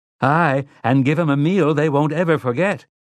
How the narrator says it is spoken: Margaret Eisenhart called out bravely

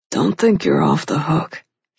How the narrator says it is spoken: he said, his voice low and husky

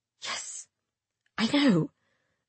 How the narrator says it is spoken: I murmured

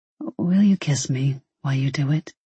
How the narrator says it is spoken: he murmured

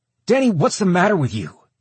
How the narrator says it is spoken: Kenny barked

